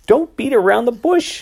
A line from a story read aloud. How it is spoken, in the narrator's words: she snapped